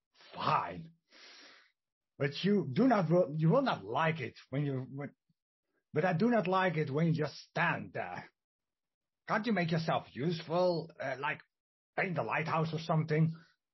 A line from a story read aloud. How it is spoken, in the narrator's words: The man grumbles